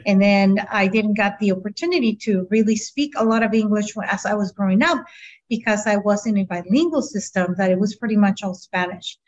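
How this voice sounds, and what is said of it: Noticeable non-native English accent. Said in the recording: “that's why you can hear my accent.”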